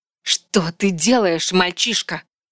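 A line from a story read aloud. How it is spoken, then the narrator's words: Hissed. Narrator (Russian): зашипела Вильварин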